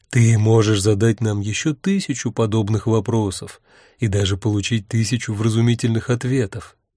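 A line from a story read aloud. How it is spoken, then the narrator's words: Soft. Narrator (Russian): мягко сказал Урк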